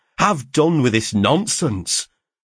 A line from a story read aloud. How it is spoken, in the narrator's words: cried I sternly